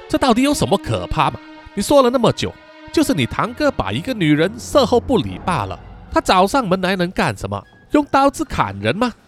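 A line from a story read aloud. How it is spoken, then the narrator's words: Laughing after speaking. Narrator (Chinese): 说完，笑了起来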